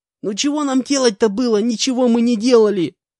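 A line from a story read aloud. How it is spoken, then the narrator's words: Shrieking. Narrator (Russian): Завизжал он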